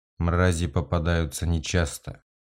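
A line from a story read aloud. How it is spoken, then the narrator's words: Flat colorless voice. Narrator (Russian): бесцветным голосом произнес Корриган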